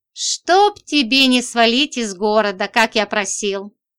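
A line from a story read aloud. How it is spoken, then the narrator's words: Sighed. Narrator (Russian): Вздохнул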